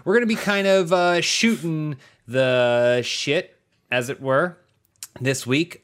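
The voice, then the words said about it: Exaggerated radio announcer voice. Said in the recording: “doing my radio voice.”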